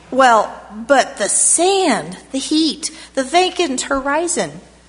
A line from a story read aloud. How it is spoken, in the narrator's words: I cried